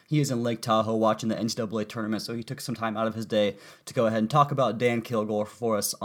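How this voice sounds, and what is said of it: Sick-sounding voice. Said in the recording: “As you guys should be able to tell by my voice by now, I am homesick from work”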